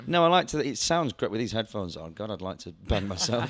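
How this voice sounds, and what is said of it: Raspy, strained voice. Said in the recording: “my voice is gone already ... sexy and raspy all the time ... this is just a weak throat ... A weak larynx”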